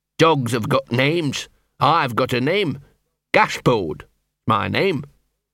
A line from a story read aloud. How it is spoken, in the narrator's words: said Gaspode, a shade sullenly